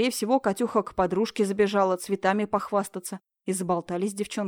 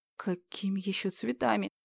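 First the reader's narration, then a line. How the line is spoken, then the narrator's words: Sobbing. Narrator (Russian): всхлипнула Людмила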